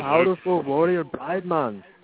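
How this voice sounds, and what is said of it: Attempted Jamaican accent. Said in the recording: “Talk like a Jamaican.”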